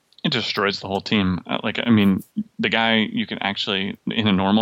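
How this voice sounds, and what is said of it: Usual voice. Nothing is said of it.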